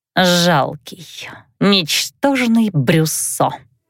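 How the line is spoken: Hissed contempt. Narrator (Russian): прошипела Филитка

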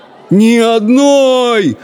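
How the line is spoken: Howling. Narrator (Russian): взвыл Абдулла

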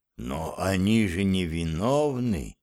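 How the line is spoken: Whisper. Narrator (Russian): прошептал он

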